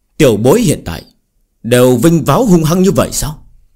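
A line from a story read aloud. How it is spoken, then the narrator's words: Angry. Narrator (Vietnamese): Sở thái thượng giận dữ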